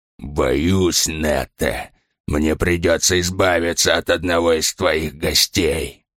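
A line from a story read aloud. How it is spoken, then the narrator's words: Growling. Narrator (Russian): прорычал он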